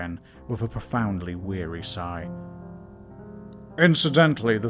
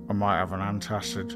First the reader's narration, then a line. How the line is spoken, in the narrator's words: groaned Ken